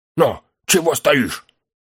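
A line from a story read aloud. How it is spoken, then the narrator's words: Sharp hushed scolding. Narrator (Russian): шепотом прикрикнул он на хоббита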